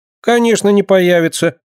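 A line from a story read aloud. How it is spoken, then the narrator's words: Sudden cheerful voice. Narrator (Russian): вдруг весело сказала Динка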